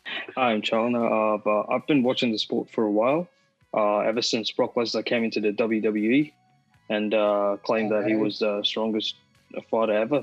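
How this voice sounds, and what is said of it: Australian accent. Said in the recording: “That is ... accent. ... We have a proper Australian joining us”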